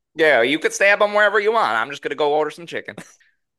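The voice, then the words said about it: Put-on accent. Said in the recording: “You are just loving that accent.”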